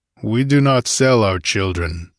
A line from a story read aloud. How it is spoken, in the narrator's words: he growled